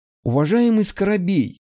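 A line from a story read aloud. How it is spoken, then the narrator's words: Agitated breathless. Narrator (Russian): взволнованно выдохнул Филинов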